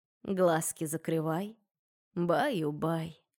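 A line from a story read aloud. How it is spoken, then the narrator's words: Soft sung reply. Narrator (Russian): тихонько пропела в ответ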